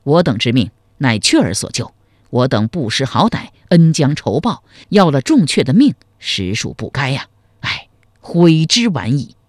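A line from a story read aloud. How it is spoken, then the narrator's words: Sighing. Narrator (Chinese): 赵匡胤叹道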